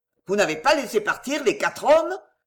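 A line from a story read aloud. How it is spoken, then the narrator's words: Thundering, menacing voice. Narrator (French): tonna Chauvelin d'une voix pleine de menaces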